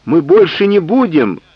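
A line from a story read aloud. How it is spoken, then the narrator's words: Cabin boys pleading. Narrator (Russian): взмолились юнги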